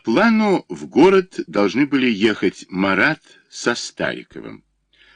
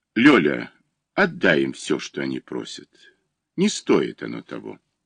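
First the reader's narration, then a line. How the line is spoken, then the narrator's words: Quiet and calm. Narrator (Russian): Илья Ильич сказал жене негромко и спокойно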